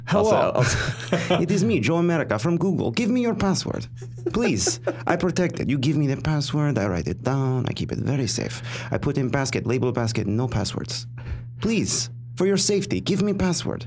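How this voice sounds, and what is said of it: Put-on Russian accent. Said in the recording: “I worked on the Russian accent ... Some improvement.”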